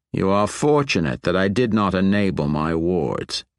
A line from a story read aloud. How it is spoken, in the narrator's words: he said dryly